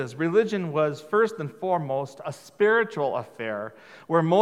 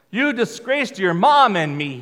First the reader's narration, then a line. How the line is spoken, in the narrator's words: he shouted